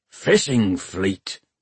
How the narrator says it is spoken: he grunted, sounding satisfied

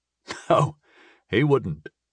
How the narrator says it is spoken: I chuckled

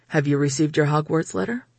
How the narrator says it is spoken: he asked, and his tone was so serious

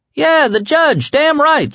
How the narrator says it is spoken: someone else yelled

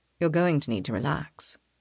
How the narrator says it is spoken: he says quietly

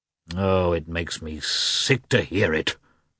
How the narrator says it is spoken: muttered the prince gloomily

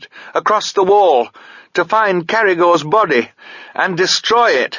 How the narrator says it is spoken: Sabriel shouted

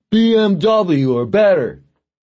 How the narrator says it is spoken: Arson yelled after him

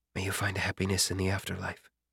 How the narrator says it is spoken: Song Churl quietly whispered under his breath

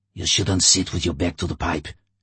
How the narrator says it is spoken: Levashov hissed at him

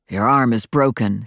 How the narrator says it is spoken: said Adam, his voice ferocious

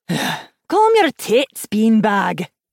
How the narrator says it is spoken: Hilda said with a sigh

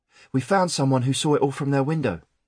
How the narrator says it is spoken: he panted

